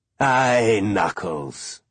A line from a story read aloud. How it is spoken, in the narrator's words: he said with a chuckle